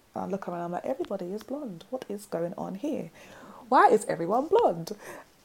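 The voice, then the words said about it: South London accent. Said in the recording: “my South London accent”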